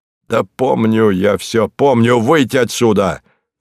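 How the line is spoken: Irritated command. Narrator (Russian): раздраженным голосом приказал

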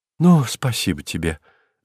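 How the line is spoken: Relieved exhale. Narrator (Russian): облегченно выдохнул помилованный

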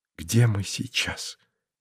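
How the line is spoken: Quiet question. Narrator (Russian): тихо поинтересовалась она

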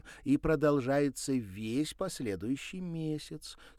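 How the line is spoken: Calm. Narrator (Russian): спокойно продолжила Александра

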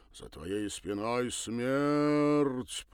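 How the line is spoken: Sepulchral drawl. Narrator (Russian): протянул загробным голосом

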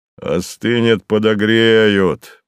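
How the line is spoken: Deep bass voice. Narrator (Russian): пробасил тот

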